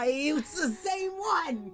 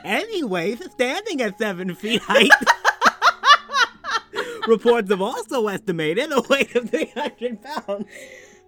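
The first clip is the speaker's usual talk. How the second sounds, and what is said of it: Silly cartoonish character voice. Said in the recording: “read it in a silly voice ... Here is a secondary voice for Jared ... All right, King Candy.”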